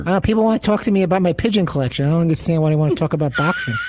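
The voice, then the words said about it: Imitates another person's voice. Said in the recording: “do a Mike Tyson impersonation ... do your Mike Tyson impersonation”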